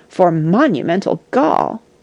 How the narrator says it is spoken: exclaimed the cat

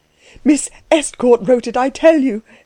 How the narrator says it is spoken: cried Klutz

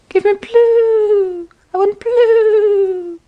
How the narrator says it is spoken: piped the bluebird

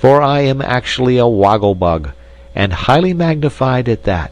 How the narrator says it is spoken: exclaimed our hero, rather peevishly

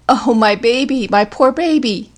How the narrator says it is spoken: Violent declarations which trailed off into the one continuous wail

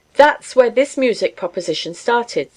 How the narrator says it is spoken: said Kinney

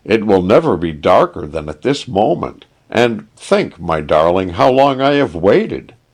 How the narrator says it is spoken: cried the prince

